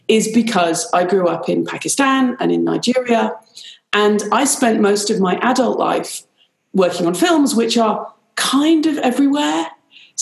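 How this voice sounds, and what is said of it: British accent. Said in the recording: “you can hear I have a British accent. I'm actually Irish.”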